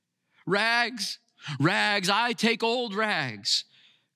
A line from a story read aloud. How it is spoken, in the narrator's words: cried the sobbing, bleeding, yet strong and intelligent ragman